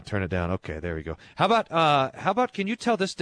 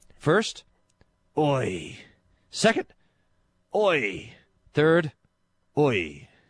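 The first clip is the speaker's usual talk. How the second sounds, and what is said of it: American, Australian, then Scottish accent. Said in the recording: “I'm going to say oi with an American accent, an Australian accent, and a Scottish accent.”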